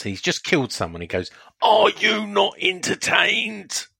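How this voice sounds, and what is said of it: Shouted New Zealand-Australian accent impression. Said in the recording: “He shouts. ... It's uncanny ... That New Zealand Australian accent you've done there.”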